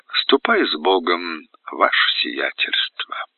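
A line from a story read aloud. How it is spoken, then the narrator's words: Gentle. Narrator (Russian): ласково сказала императрица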